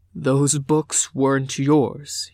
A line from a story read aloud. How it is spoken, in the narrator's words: he said, voice rumbling